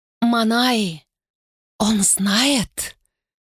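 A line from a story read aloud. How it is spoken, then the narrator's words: Whisper. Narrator (Russian): шептала Унора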